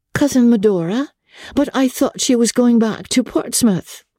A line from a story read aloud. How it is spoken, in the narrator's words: May exclaimed